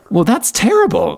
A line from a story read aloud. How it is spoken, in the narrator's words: Alishka gasps